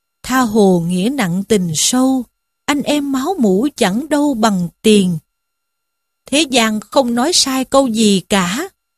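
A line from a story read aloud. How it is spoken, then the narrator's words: Sighing lament to himself. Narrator (Vietnamese): Lâm Xung thấy thế thì thở dài, than một mình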